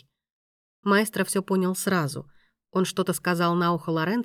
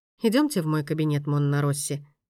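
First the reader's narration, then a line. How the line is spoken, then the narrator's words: Calm. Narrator (Russian): произнес маэстро спокойно, как будто ничего и не случилось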